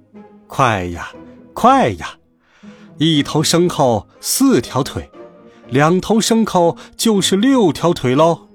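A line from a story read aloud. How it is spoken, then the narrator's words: Laughing. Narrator (Chinese): 他笑着说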